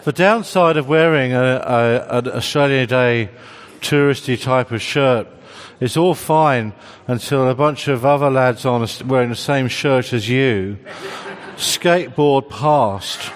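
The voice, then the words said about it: Refined, clipped accent. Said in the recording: “my properly refined clipped accent”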